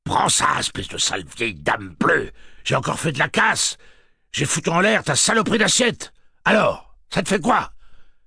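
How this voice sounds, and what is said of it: Defiant shouting character voice. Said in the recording (French): “cria-t-elle avec la voix pleine de défis de Detta Walker”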